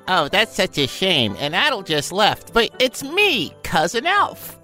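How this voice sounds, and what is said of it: Silly put-on character voice. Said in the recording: “do this bullshit voice”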